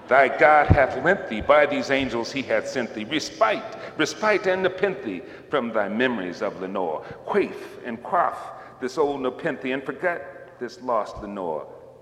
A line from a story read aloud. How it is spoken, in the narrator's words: I cried